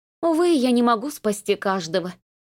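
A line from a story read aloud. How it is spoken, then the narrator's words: Confessing, heavy sigh. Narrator (Russian): призналась она и надсадно вздохнула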